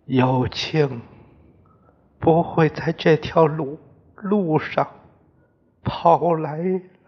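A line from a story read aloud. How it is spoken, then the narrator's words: Crying. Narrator (Chinese): 家珍哭着说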